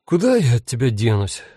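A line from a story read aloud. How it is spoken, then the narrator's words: Sighing. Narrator (Russian): вздохнул Анджей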